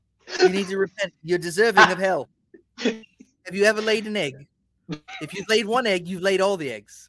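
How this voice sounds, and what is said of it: Imitates another person's voice. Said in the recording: “That impression is amazing.”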